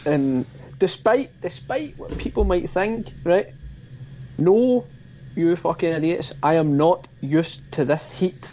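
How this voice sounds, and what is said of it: Broad Scottish Glasgow accent. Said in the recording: “my fucking broad Scottish Glasgow accent”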